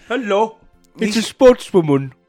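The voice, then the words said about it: Silly put-on character voice. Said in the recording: “I just do this voice. ... Stop doing your voices.”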